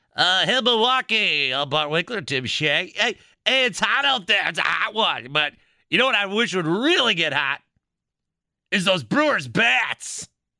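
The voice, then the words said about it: Over-the-top radio announcer voice. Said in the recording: “use your over-the-top radio voice”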